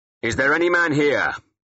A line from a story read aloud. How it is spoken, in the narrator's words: I shouted